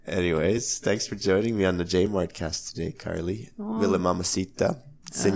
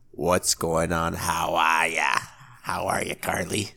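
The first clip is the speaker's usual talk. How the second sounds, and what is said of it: Bad put-on Boston accent. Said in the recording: “your accent sucks ... Yeah, it's bad.”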